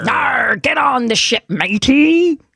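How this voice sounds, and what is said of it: Pirate voice. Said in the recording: “Talk Like a Pirate ... I thought I did a really good job”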